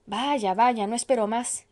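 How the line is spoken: Woman exclaiming. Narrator (Spanish): exclamó la mujer del alcalde

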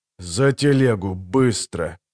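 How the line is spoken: Hoarse rasp. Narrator (Russian): прохрипел незнакомец

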